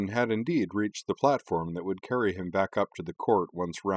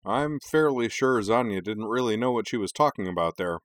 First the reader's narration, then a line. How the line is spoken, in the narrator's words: play-by-play man Kenji said dryly